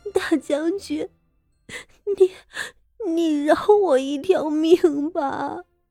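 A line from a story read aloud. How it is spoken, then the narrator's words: Panting, crying. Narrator (Chinese): 傅锦仪大口大口的喘着气，哭道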